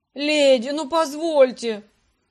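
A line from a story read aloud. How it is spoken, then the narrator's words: Two men wailing wildly. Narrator (Russian): взвыли дурными голосами эти два артиста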